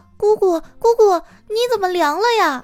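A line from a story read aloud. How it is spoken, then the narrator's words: Child shouting. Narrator (Chinese): 小辉就大喊大叫的说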